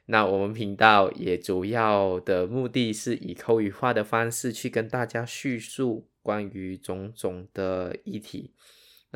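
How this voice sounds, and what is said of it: Malaysian Sarawak-accented Mandarin. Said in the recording (Chinese): “我的口音可能跟你不一样。那我本身是马来西亚沙劳越人 ... 你一定会发现我的口音，中文口音完全跟你不一样，而且会显得很奇怪，然后好像有很多字的发音，呃，好像很不对啊”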